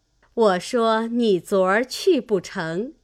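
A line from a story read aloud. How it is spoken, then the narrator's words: Laughing. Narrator (Chinese): 李纨笑道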